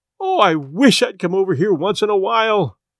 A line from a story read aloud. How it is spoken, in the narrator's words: she cried